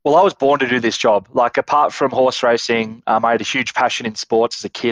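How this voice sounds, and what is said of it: Australian accent. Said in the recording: “clearly from the accent, Australia”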